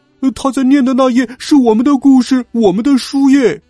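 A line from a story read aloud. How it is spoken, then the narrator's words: Group shouting. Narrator (Chinese): 他们叫道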